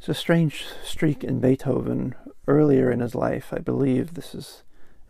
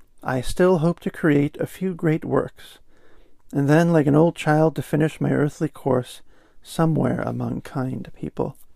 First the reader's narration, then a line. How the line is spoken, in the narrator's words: he sighed